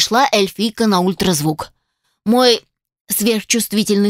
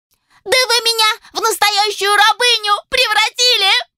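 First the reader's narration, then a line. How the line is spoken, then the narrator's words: Shrieking. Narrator (Russian): провизжала Моника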